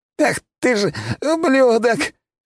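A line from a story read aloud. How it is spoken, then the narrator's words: Hoarse wheezing. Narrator (Russian): хрипел, но не сдавался алчный торгаш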